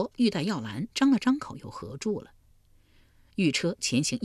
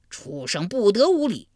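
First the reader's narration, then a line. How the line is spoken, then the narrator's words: Thunderous roar. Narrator (Chinese): 他这一吼如晴天响了一声霹雳，震得山摇地动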